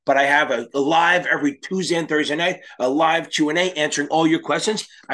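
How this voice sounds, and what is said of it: Hoarse, strained voice. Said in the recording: “My voice is gone from the game”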